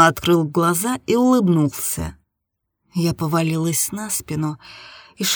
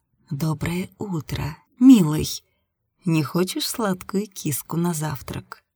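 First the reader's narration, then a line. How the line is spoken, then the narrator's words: Soft whisper. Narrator (Russian): тихо прошептала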